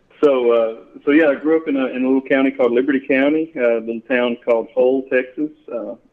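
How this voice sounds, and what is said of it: Southeast Texas accent. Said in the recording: “The accent here, I grew up in Southeast Texas”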